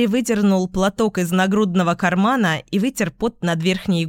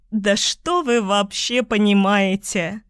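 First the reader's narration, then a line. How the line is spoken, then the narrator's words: Hysterical laugh. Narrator (Russian): истерично рассмеялась я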